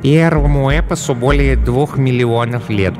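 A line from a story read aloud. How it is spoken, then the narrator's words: Purring. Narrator (Russian): промурлыкала Глая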